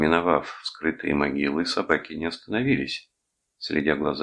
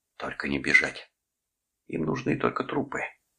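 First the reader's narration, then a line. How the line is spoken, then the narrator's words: Whisper. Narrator (Russian): Дженнингс прошептал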